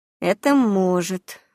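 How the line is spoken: Sighing admission. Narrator (Russian): вздохнув, признала мою правоту Стеша

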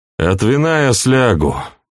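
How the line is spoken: Grumbling. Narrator (Russian): буркнул Сергей

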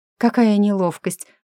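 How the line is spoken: Breathed out. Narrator (Russian): выдохнула Бриана

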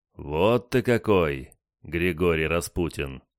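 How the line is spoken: Surprised drawl. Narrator (Russian): протянул удивленный матрос

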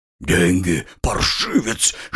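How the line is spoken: Hiss. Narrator (Russian): шипел низенький

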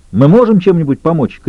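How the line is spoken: Shout. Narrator (Russian): крикнул Лютер

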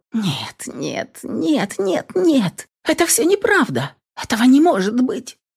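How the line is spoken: Incoherent babbling. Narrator (Russian): Бессвязно пролепетала я

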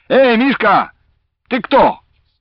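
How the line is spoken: Boy shouting. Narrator (Russian): Какой-нибудь конопатый мальчишка, свесившись с забора, кричал своему противнику из другого лагеря

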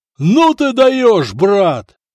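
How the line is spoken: Delighted yell. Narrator (Russian): восторженно заорал Надир

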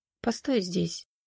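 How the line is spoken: Quiet. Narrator (Russian): тихо сказал он Валерии

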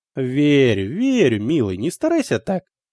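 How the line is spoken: Cooing, mother. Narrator (Russian): проворковала мама

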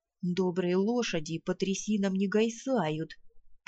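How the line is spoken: Muttering. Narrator (Russian): пробурчал Кузьмай

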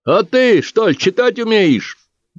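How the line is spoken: Shout from the crowd. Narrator (Russian): выкрикнул кто-то из толпы

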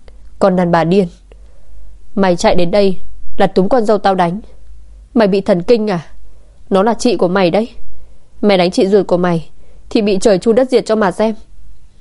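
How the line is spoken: Loud shout. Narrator (Vietnamese): Ngưu Lai Hoa hét lớn

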